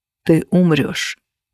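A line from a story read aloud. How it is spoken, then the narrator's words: Very quiet. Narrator (Russian): произнес он так тихо, чтобы услышала я одна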